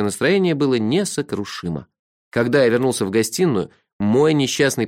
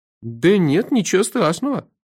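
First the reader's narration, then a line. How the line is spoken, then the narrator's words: Confused, deflated agreement. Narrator (Russian): растерянно согласился обнаглевший было, а теперь снова поникший гость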